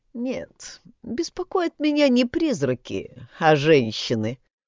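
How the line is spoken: Sighing. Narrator (Russian): вздохнула

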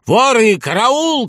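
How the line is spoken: Shouting in chorus. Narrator (Russian): кричали они

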